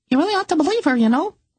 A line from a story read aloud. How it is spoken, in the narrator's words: the canary spoke in his tiny piping voice